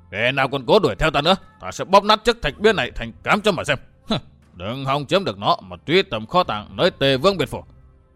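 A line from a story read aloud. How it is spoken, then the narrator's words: Shouted down from above. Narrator (Vietnamese): Đông Hải chân quân Lãnh Cửu quát phỏng xuống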